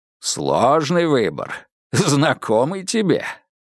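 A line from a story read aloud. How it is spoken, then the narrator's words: Good-natured chuckle. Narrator (Russian): Крайнов добродушно хохотнул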